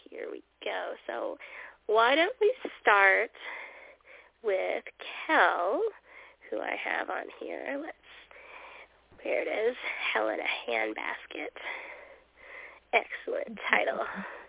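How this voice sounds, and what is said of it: Raspy voice. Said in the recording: “I apologize for my voice. I've had a cold all week, so I'm a little bit raspy”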